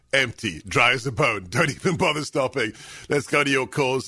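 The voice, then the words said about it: Distinctive, enjoyable regional accent. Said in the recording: “your accent ... it is enjoyable ... my accent”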